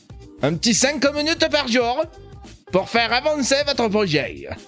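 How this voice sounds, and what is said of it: Put-on Marseille French accent. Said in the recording (French): “c'est un accent marseillais”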